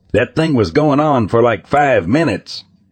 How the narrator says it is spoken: exclaimed Grandpa

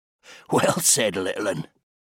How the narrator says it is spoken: chuckled Jimbird

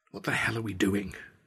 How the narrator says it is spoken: muttered to myself, my teeth chattering

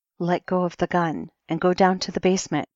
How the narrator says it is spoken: Sophia said

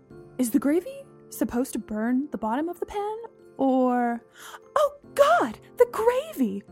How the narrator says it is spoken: Mom shrieked

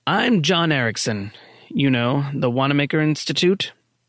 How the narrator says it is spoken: Miller said

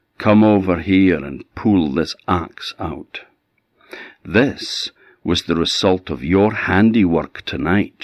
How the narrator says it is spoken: she said

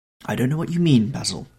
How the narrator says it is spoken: he exclaimed

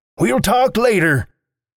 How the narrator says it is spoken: He hollered

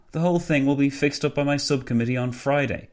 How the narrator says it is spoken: Nicholson sighed

